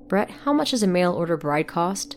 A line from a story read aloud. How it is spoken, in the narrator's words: She laughed